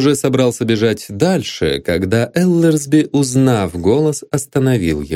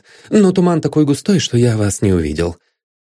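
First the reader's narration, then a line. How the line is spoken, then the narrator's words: Hurried mutter. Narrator (Russian): торопливо пробормотал незнакомец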